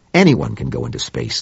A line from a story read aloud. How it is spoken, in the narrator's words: snapped Claiborne